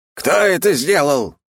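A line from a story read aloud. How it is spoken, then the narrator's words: Menacing bark, old man. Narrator (Russian): грозно рявкнул дед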